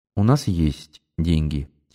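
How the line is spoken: Quiet. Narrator (Russian): тихо сказала

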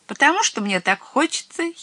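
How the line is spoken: Little witch giggling. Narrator (Russian): хихикнула маленькая баба-яга

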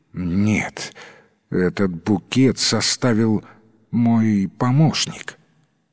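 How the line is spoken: Trembling voice. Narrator (Russian): Садовник дрожащим голосом ответил

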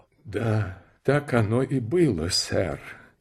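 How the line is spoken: Quiet reply. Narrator (Russian): тихо ответил Парадиз

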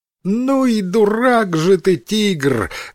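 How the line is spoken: Monkey's loud laughter. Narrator (Russian): громко рассмеялась обезьяна

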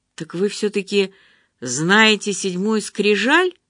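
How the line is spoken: Exclaiming. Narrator (Russian): воскликнул я

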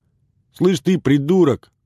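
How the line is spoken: Angry yell. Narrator (Russian): Заорал он на Долгова

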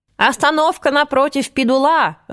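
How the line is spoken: Yelling. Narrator (Russian): заорала я поверх ее плеча

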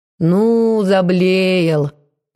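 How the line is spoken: Displeased drawl. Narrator (Russian): недовольно протянула Марфа

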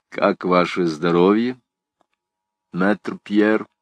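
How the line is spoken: Calm but cold. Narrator (Russian): спокойно, но холодно спросил

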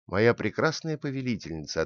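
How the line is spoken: Plain. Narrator (Russian): ответил он

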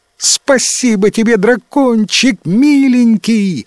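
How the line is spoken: Shrieked. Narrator (Russian): завизжала принцесса

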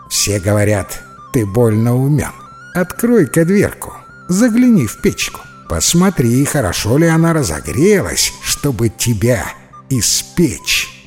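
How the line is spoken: Witch chuckling, giggling. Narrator (Russian): Посмеивается ведьма, хихикает

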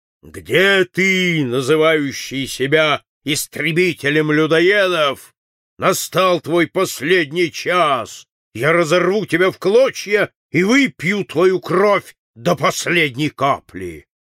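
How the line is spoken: Thunderous shout. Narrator (Russian): он крикнул громовым голосом

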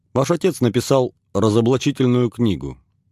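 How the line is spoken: Lawyerly explaining tone. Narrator (Russian): пояснил Глебов адвокатским тоном

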